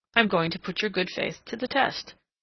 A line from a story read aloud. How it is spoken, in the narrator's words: calmly